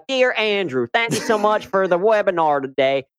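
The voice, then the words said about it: Weak put-on Southern accent. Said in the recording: “Mine end up being an amalgamation of like, is that really an accent ... I'll try to be like Southern ... maybe that's not so great”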